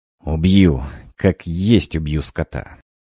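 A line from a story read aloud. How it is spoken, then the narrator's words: Angry words through teeth. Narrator (Russian): Сквозь зубы цедил злые слова Алексей Григорьевич Разумовский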